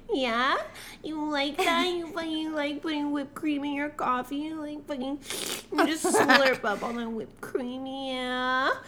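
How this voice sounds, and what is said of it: Porn star character voice. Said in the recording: “doing that voice ... She's like she's a porn star ... She is a porn star, for sure.”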